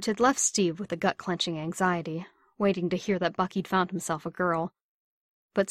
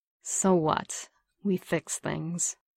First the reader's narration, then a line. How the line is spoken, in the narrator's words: Bucky replied thickly